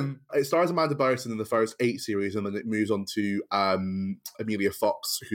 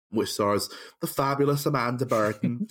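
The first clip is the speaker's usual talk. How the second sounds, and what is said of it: Bad put-on Irish accent. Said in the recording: “That was the worst Irish accent I've ever done.”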